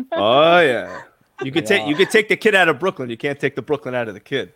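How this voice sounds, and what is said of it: New York accent. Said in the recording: “His accent New York. Gets me every time.”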